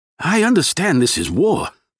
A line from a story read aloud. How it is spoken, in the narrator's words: the passenger said, his voice tight with emotion